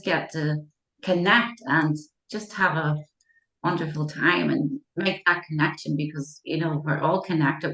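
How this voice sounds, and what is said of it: Irish accent. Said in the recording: “I'm here in Ireland ... where that accent was from”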